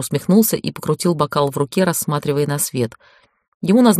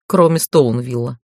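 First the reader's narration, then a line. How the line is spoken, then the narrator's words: Snorting. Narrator (Russian): фыркнул Интар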